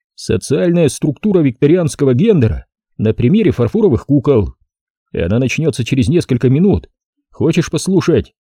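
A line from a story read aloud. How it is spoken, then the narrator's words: Laughing. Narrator (Russian): Райли рассмеялась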